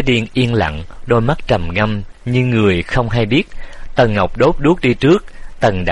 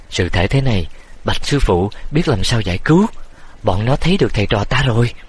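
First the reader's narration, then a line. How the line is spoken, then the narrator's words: Fearful soft cry. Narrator (Vietnamese): Triệu Võ lo sợ kêu, khẽ kêu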